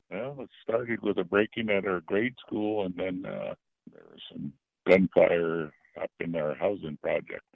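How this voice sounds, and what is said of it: Hoarse voice. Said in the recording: “my voice is so hoarse, but I've been up all night”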